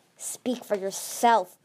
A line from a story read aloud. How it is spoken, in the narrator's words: Glory growled